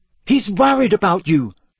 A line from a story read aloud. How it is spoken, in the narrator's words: said Hermione sharply